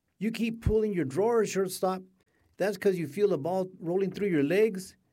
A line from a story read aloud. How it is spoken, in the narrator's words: she shouted